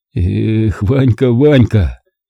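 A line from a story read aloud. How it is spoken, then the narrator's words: Silent, holding back tears. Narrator (Russian): Едва сдерживая себя, чтобы не разрыдаться, беззвучно повторял я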